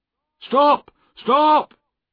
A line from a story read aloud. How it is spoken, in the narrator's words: he cried